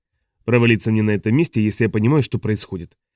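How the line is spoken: Grumbling. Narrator (Russian): проворчал Оповин

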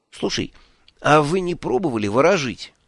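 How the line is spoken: Uncertain question. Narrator (Russian): неуверенно спросил

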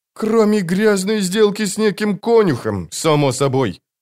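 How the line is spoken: Grumbling. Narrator (Russian): проворчал Мурильо

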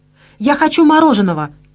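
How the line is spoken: Loud announcement. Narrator (Russian): громко объявила Кристина Голосуй

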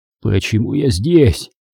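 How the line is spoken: Hoarse question. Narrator (Russian): хрипло спросил Дональд

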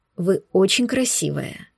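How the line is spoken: Whispering. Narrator (Russian): нашептывал Оскар

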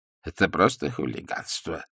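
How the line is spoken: Mumbling. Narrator (Russian): забормотал ксенц Кушаковский

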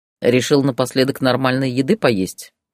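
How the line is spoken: Father's snort. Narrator (Russian): хмыкнул отец

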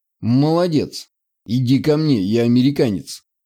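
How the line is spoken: Whisper. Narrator (Russian): прошептал

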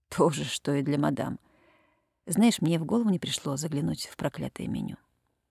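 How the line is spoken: Confused mutter. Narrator (Russian): в полном смятении пробормотал

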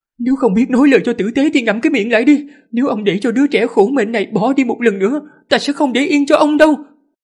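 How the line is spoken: Panicked, furious scolding. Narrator (Vietnamese): Phu nhân Tăng Tĩnh hoảng hốt tột độ, giận dữ mà mắng

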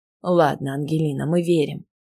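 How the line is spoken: Gentle voice. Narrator (Russian): мягко сказал мне Максим

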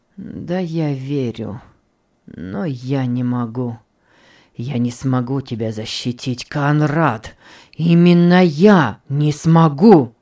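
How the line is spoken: Pained moan. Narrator (Russian): С болью простонал епископ

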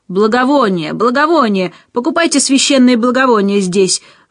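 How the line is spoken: Street vendor shouting in ear. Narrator (Russian): выкрикнул мне прямо в ухо какой-то уличный торгаш

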